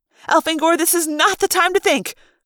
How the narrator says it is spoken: Lauren yelled

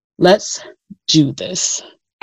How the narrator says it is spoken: I growled

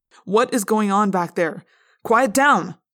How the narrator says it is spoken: the teacher demanded loudly

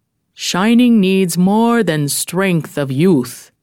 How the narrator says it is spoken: said gravely

